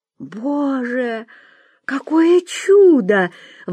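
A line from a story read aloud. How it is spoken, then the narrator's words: Exclaiming. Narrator (Russian): воскликнула Вера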